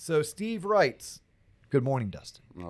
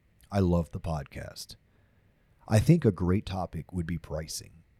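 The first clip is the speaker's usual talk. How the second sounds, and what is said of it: Radio DJ voice. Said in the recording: “my radio DJ voice”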